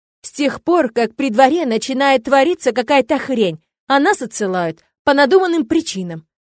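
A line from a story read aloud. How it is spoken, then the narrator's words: Exclaimed. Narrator (Russian): воскликнул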